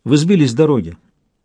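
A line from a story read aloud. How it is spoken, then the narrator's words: Calm answer. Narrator (Russian): спокойно отвечал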